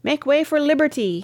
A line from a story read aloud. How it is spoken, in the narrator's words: he cried